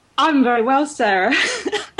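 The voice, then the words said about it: Put-on Australian accent, not too bad. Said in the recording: “I couldn't even do the accent ... Actually, that wasn't too bad. All those years of watching Neighbours”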